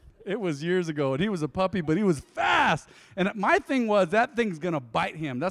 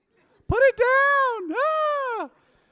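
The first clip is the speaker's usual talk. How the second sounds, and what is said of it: High-pitched panicked scream. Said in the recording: “I was screaming like a girl ... my voice was high”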